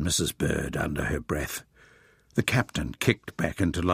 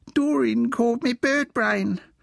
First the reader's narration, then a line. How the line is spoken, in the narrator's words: whined Wilfred